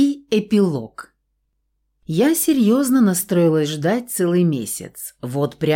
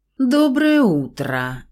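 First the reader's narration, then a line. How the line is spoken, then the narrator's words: Gloomy greeting. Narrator (Russian): Мрачно поздоровалась я, уже ожидая очередную неприятность на свою 5-ю точку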